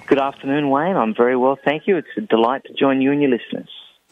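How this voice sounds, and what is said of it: Australian accent. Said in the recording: “Is that a Australian accent I hear?... It is, yes, yes.”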